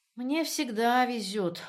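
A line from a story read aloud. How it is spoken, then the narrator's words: Glum remark. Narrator (Russian): уныло заметил Звонов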